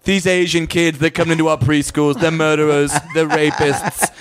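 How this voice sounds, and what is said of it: Imitates another person's voice. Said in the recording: “I did not know that you did a Trump. I'm actually very impressed right now. ... doing an impression ... It's pretty decent.”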